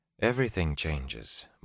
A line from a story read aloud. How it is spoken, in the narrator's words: Moraine said calmly